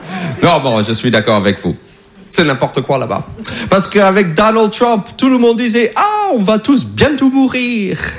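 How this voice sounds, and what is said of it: American accent in French. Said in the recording (French): “je parle vraiment comme ça... c'est mon vrai accent... je parle comme ça parce que je viens des États-Unis”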